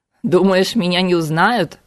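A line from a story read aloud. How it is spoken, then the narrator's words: Chuckling Cossack. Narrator (Russian): хохотнул казак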